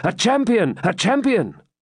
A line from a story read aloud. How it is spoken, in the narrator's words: they shouted unanimously